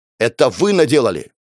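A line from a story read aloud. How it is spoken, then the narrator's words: Snapped retort, professor. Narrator (Russian): огрызнулся профессор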